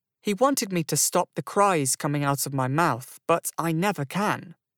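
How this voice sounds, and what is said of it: Young-sounding British accent. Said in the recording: “it's British. ... a nice British accent ... He sounds so young.”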